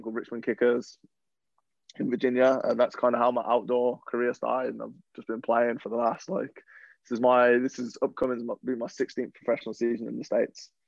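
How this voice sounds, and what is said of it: English accent drifting toward American. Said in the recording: “the accent, and I feel like it's a bit of a mixture. I feel like it's getting there towards the American side, but you're still holding on ... they think I'm from Australia ... they know I'm English”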